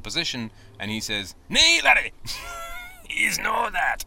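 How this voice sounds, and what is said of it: Rusty put-on Scottish accent. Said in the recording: “I have to work on my Scottish accent. I used to be able to do a good one, but I'm I'm out of practice”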